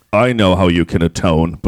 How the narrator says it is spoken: boomed the beast

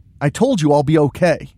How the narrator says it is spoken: Tristan snaps

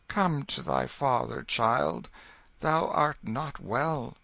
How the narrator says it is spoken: He breathed a heavy sigh, and said in a gentle voice

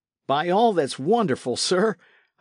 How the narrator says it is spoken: I cried to Blake

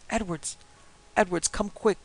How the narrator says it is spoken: cried Charlie

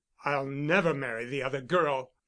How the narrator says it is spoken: said savagely

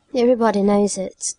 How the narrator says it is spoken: said Ruby bitterly

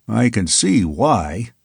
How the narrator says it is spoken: murmured someone

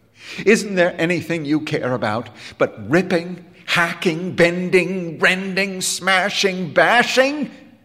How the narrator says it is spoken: He cried

